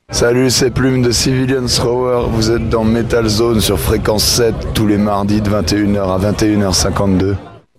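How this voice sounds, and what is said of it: Slightly husky voice, northeastern French accent. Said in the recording (French): “J'aime bien le timbre de voix qu'il a. ... Ouais, une petite voix un peu cassée. Ouais, et puis un accent du nord-est bien sympathique.”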